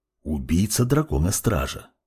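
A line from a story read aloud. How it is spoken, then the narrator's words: Whisper. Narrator (Russian): прошептал темный маг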